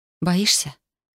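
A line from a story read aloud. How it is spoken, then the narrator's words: Quiet question. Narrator (Russian): спросил тихо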